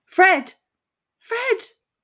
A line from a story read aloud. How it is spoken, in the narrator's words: the group was screaming